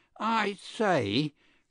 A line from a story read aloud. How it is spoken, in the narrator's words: cried an aggrieved voice